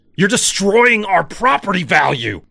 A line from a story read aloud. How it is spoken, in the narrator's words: Dad yelled, veins bulging